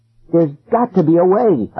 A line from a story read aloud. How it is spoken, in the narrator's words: I cried